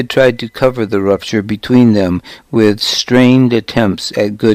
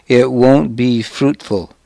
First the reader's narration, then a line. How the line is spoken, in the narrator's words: said